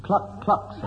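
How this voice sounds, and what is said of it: Imitates a chicken clucking. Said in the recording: “can you impersonate animals? ... A chicken, sir.”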